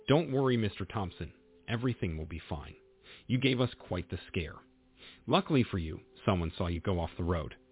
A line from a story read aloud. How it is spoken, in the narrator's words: she said